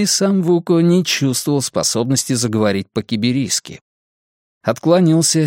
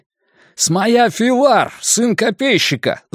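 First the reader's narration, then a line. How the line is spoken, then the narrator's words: Yelling, heavy foreign accent. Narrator (Russian): заорал он по-митрайски с ужасным акцентом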